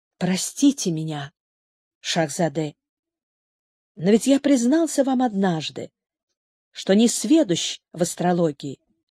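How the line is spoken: Quiet, timid, pitying. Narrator (Russian): Почувствовав жалость к этому опустошенному человеку, тихо, почти робко сказал

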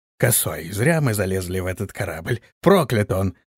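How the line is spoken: Tipsy grumble. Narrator (Russian): проворчал подвыпивший парень

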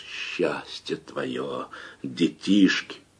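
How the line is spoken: Disgusted hoarse rasp. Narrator (Russian): Андрей, брезгливо морщись, хрипел

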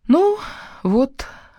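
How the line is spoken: Breathed out. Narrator (Russian): выдохнула я

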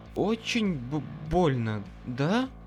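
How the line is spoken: Stuttering. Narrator (Russian): Она даже заикаться начала

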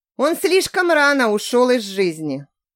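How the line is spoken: Woman's sigh. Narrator (Russian): вздохнула женщина

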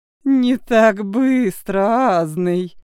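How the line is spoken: Hoarse laugh. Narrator (Russian): хрипло рассмеялась Сольвейк

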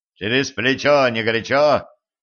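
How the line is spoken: Barked. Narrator (Russian): рявкнул на него Денис

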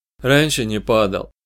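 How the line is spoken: Muttered. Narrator (Russian): пробормотал я

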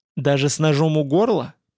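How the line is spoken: Growled. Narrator (Russian): прорычал Владимир

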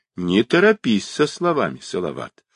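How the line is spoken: Plain. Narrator (Russian): ответил приезжий

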